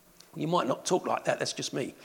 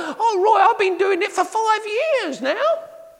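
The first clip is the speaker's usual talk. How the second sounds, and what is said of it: Impression of the speaker's mum. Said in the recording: “That's an impersonation of my mum”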